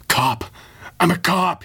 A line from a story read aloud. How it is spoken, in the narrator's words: he gasped